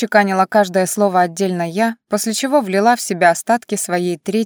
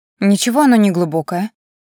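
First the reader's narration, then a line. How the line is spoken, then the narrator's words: Displeased mutter to herself. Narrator (Russian): недовольным тоном пробубнила себе под нос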